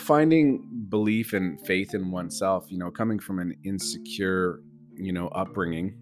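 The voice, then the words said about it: Deeper, raspy voice. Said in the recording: “I'm just recovering from a flu bug... my voice is a little deeper today and a little raspy”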